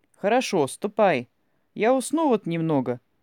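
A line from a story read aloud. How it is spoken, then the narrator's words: Simple, calm. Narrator (Russian): сказал Павел Николаевич просто и спокойно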